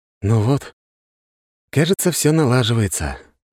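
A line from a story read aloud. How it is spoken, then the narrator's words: Sighing. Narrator (Russian): вздохнул я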